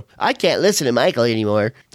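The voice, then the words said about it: Imitates departing listeners' voice. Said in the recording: “That's my imitation of people that leave the Fiends to go to another show.”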